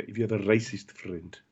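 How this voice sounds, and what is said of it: Put-on Zimbabwean accent. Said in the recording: “It doesn't sound right, that accent, does it? ... I'm going to end up speaking with a Zimbabwe accent”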